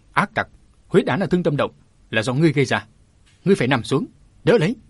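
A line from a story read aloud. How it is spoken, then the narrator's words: Shout. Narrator (Vietnamese): Mã Bình còn quát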